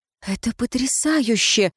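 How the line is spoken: Breathless. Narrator (Russian): выдохнула

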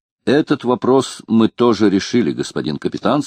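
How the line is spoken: Plain. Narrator (Russian): сказал Провост

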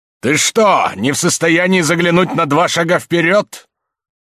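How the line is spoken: Angry, frightened involuntary shout. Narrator (Russian): Кричал он это гневно, но в то же время, как кричат подчас непроизвольно, испугавшись сами, когда видят, как падает кто-то другой

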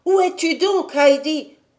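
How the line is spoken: Angry shout. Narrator (French): cria-t-il enfin d'un ton assez fâché

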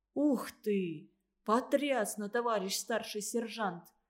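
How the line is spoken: Hollow awed whisper. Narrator (Russian): гулко прошептал Вовка, не то призывая Андрея восхититься, не то ища в нем опоры перед грядущими событиями

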